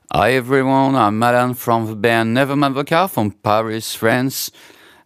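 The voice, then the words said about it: French accent, hard to understand. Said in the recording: “from France ... whether you can understand everything he's saying with his accent or not, it's nice to listen to”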